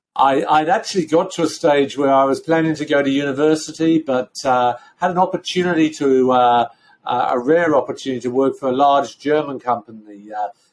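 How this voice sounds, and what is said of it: Slight London accent. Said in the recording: “as you can hear from the accent, you can take the boy out of London, you can't take the London out of the boy. So there is still a bit of a London twang.”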